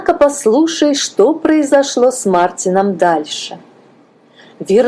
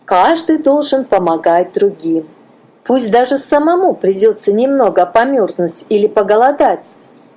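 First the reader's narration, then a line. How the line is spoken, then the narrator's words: Plain. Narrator (Russian): сказала мама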